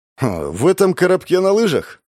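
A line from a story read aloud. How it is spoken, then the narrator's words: Skeptical snort. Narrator (Russian): хмыкнул Родион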